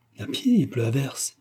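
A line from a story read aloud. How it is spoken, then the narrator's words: Lady cries out. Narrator (French): s'écria la dame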